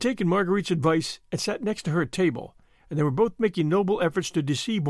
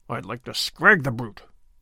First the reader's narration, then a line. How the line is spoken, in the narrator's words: muttered Sir Andrew savagely